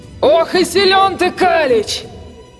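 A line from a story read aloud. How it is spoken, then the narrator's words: Monster growling. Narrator (Russian): рычало чудище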